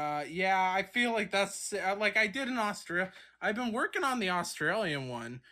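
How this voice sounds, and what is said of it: Usual voice. Nothing is said of it.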